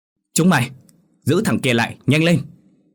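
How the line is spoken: Urgent shout. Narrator (Vietnamese): thầy Huyền hét lên

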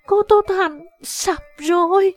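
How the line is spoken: Terrified cry. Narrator (Vietnamese): Tây Thi run rẩy, từ tiềm thức nàng có sự run sợ, nàng thất thanh kêu lên

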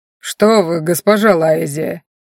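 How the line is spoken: Indignant deep bass. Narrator (Russian): с возмущением пробасил господин Дави

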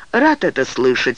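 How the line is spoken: Dry retort. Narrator (Russian): сухо парировал судья

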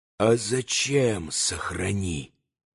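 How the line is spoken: Angry whisper. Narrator (Russian): все тем же шепотом продолжал Иван, злобно скривив лицо

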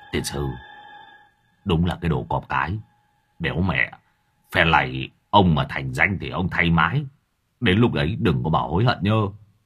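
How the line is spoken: Relieved muttering. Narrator (Vietnamese): Lâm Thọt mới thở phào một hơi, hoàn hồn, miệng lẩm bẩm

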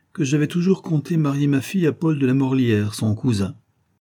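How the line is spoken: Marquis finishing coldly. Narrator (French): acheva froidement le marquis

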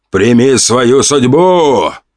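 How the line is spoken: Bearded man shouting. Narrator (Russian): выкрикнул бородач

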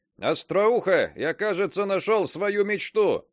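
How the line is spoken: Shouting while running. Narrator (Russian): на бегу крикнул я ей

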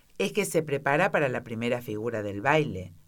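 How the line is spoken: Plain. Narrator (Spanish): dijo a Alicia

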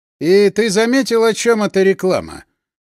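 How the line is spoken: Snide, probing tone. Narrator (Russian): Голос Булыги приобрел ехидно испытующую ноту

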